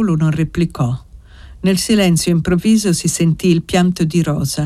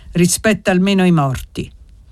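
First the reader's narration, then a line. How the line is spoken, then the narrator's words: Grandfather's grave sad voice. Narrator (Italian): disse il nonno con voce grave e triste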